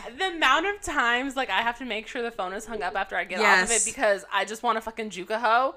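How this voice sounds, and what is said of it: Usual voice. Nothing is said of it.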